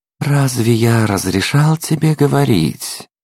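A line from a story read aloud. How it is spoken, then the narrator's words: Insinuating question. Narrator (Russian): вкрадчиво спросил тип в очках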